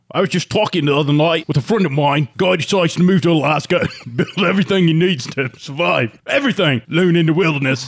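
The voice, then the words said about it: Bad imitation of another person's voice. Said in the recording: “Like somebody doing a bad Russell Crowe impression.”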